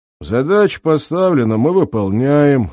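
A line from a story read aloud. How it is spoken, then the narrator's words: Bored voice, hulking lieutenant. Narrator (Russian): скучным голосом сказал глыбистый лейтенант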